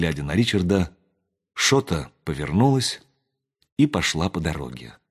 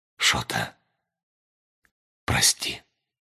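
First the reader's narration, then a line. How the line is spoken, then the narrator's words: Hoarse. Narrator (Russian): сказал он хрипло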